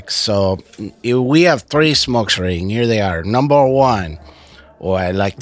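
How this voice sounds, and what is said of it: Deliberately bad Mexican accent. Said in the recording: “my worst Mexican accent”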